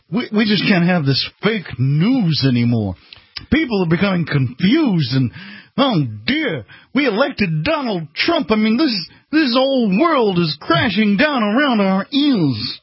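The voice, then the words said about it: Thurston Howell III impression, Mainline accent. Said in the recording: “your Thurston Howell III impression ... the mainline accent”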